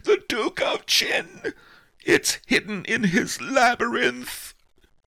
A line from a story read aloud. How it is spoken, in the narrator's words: the terrified face of pawnbroker Fang, I heard him scream